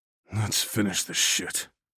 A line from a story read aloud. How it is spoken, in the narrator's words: growled